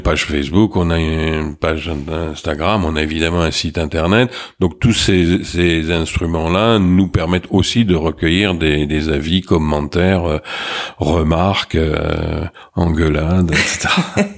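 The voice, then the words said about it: Slight Marseille French accent. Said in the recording (French): “coloré par votre accent ... il semblerait que j'ai gardé un point d'accent marseillais ... Marseille a marqué un petit peu votre accent”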